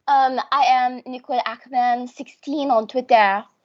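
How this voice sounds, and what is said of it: Deliberately bad French accent. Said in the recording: “This is my bad French accent”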